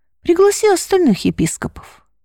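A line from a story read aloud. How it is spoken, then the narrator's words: Calm. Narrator (Russian): спокойно произнес он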